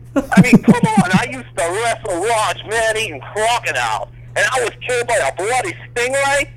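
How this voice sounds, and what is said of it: Steve Irwin impression, Australian accent. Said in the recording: “Oh, Steve, man, dude. ... Really, Steve Irwin”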